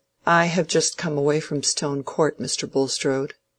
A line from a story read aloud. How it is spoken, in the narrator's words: to say, in a rather subdued voice